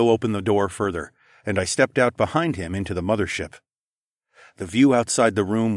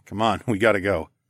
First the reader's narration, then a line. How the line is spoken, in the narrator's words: chuckled